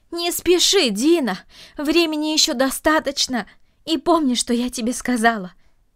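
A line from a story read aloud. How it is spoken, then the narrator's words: Calling out after someone. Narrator (Russian): крикнула она ему вслед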